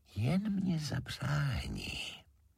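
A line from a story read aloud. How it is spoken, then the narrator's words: Horse whispering very softly. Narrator (Czech): valach žemlička tichoučce pošeptá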